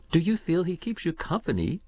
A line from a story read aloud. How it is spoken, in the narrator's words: she laughed